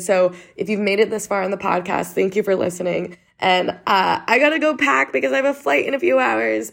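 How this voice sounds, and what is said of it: Congested voice. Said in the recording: “I'm suppressing a cough right now ... I sound so congested.”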